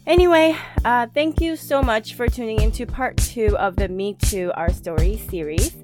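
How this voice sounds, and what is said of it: Sick, rough-sounding voice. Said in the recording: “I've been quite under the weather. I don't know if you can tell from my voice, but it's a little goners.”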